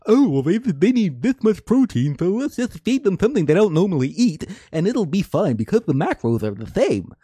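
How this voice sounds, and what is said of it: Mocking stupid-sounding character voice. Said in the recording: “That's a really lazy, stupid voice ... really good character voice”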